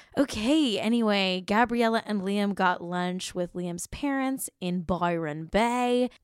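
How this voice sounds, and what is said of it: Put-on Australian accent. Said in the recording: “sorry for my Australian accent... I have to say Byron Bay in an Australian accent”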